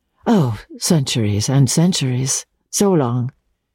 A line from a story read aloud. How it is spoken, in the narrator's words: she said